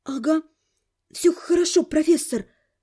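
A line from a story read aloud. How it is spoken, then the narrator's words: Hoarse strained voice. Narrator (Russian): сипло выдавила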